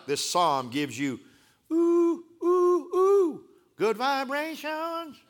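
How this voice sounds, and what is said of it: Sung imitation of a pop band. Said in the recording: “my Beach Boy imitation”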